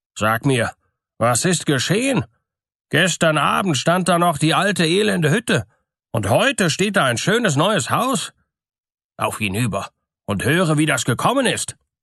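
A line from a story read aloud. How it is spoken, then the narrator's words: Astonished man speaking. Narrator (German): rief seine Frau herbei und sprach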